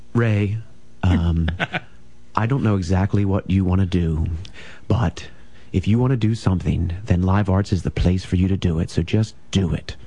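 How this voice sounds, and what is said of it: Soft-spoken imitation of another person. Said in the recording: “Impersonation ... I got a little too soft, but John's generally a softer speaker than I am”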